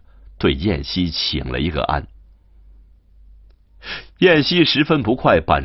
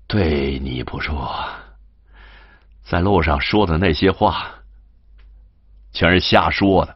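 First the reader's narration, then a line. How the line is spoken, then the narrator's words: Hesitant, with a smile. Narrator (Chinese): 金荣笑了笑，踌躇的说道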